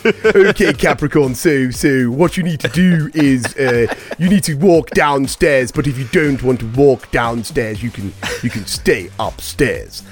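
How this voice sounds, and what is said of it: Imitates another person's voice. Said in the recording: “Boris Johnson doing horoscopes ... That's a good impression.”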